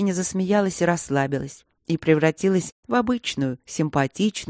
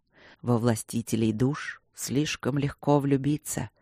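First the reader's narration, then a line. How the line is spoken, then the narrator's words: Quiet hoarse near-whisper. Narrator (Russian): тихо и хрипло сообщил Люк почти ей на ухо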